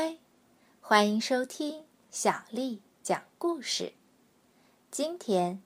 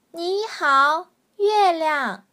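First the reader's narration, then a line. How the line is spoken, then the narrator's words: Loud shout. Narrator (Chinese): 他大叫着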